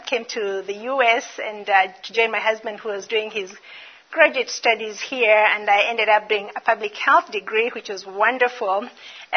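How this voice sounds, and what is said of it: Kenyan-accented English. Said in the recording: “I'm originally from Kenya... Still not gotten the American accent. I'm working on it, but it's not coming.”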